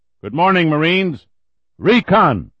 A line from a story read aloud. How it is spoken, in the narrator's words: they bellowed back